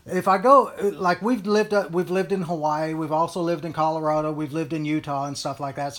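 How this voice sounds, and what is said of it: Texan accent. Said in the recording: “I was born and brought up in Texas and stuff. I think it's obvious by the way I talk”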